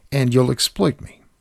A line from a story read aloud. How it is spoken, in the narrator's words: Sophie said